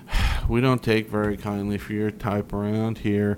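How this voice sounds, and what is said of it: Bored gay hipster voice. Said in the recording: “the gay hipster accent ... They just sound bored with you.”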